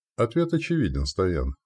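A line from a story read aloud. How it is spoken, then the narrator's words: Plain. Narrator (Russian): сказал я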